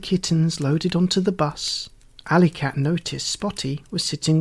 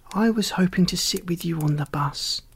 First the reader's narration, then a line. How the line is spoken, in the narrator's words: she whispered